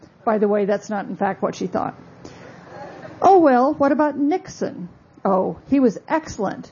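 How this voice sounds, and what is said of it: Usual voice. Nothing is said of it.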